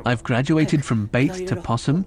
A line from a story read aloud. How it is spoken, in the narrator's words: Hiro says